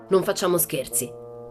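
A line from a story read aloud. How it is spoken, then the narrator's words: Furious. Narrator (Italian): si infuriò Tuono Carlson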